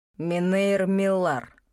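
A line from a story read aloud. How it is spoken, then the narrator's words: Icy correction. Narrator (Russian): ледяным голосом поправил меня наставник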